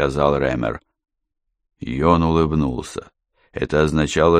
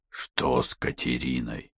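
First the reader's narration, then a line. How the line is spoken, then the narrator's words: Hoarse voice. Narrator (Russian): хрипло произнес Йон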